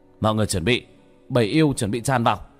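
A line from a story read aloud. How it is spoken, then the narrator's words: Shouting. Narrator (Vietnamese): Bác cổ hét lên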